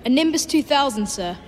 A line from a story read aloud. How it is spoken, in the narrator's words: said Harry, fighting not to laugh